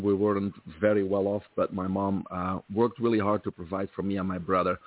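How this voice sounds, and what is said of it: Belgian accent. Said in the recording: “I grew up in Belgium, from there the accent”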